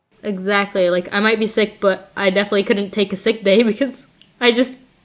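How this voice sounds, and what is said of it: Stuffy, congested voice. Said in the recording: “my throat is very sore, and like I can feel my nose starting to like get runny and stuffy. So I'm sorry if my voice sounds a little stuffed”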